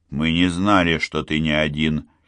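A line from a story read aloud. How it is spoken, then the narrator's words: Quiet. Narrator (Russian): тихо сказал он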